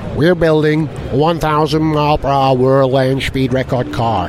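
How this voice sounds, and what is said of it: Put-on American accent. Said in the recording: “I know it might be inappropriate to do it in an American accent”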